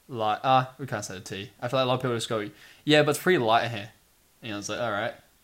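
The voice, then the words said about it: New Zealand accent. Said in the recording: “she made fun of our accents ... Kiwi accents are a little bit out of the ordinary”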